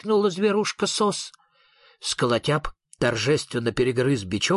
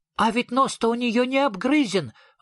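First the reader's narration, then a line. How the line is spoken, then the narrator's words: Small animal exclaiming. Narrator (Russian): воскликнул зверок Шнырок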